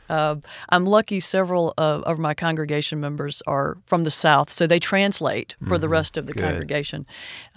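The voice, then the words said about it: Southern US accent. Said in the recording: “you're a Southerner ... Just the accent.”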